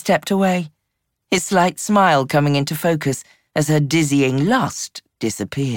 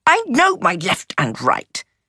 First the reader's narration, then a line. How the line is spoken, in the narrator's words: she spluttered